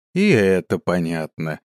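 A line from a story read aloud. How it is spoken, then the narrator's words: Sighing. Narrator (Russian): вздохнул я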